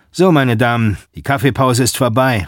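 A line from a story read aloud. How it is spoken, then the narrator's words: Calls out. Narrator (German): ruft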